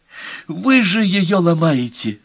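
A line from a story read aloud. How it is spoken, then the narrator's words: Pleading. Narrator (Russian): взмолился мистер Ковингтон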